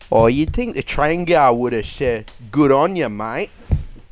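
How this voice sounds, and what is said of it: Broad Australian bogan accent. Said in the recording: “give him a voice. ... as bogan as you can, please.”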